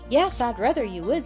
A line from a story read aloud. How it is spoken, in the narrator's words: said Mrs